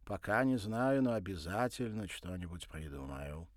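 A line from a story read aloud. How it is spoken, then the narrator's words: Feigned confident tone. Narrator (Russian): нарочито уверенным тоном ответил Николя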